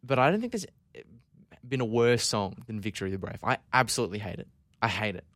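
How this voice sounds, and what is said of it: Scottish accent. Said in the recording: “I'm a proud Scot, obviously from my voice. You know, the accent, it's very subtle, very subtle.”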